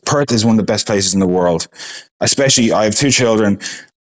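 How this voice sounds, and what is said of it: Irish accent. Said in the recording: “Ireland will always be my home. It's always going to be in my accent.”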